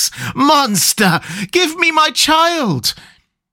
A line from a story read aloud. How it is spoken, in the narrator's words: She threw herself on her knees, and raising up her hands, cried the same words in tones which wrung my heart